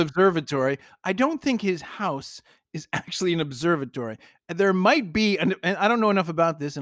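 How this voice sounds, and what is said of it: Usual voice. Nothing is said of it.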